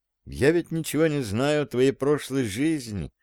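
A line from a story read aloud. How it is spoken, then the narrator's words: Thoughtful. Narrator (Russian): сказала задумчиво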